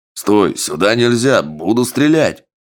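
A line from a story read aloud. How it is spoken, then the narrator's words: Sentry's loud bark in Sango. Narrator (Russian): Громко на сангу рявкнул часовой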